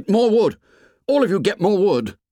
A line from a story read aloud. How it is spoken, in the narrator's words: Ralph shouted